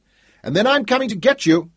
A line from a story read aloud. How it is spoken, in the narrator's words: he shouted, as he had when she was just a shrimp